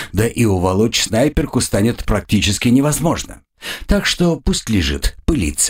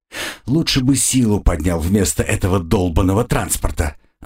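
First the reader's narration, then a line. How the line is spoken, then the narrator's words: Angry. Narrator (Russian): злобно произнес я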